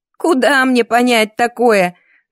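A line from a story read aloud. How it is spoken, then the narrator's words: Exasperated, sarcastic. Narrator (Russian): закатила глаза Клима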